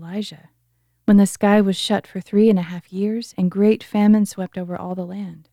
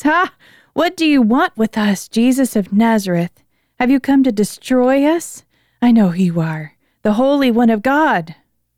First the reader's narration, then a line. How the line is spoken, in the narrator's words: He cried out in a loud voice